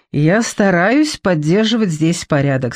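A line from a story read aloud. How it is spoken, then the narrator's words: Plain. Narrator (Russian): сказал он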